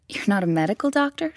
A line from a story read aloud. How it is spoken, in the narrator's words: cried